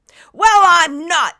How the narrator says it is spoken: Nimbus shouted

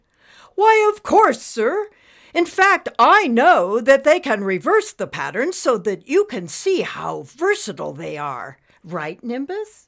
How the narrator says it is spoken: Principal Concave shouted

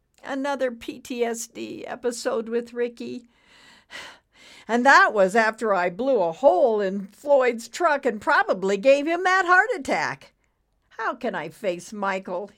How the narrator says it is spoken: he whimpered

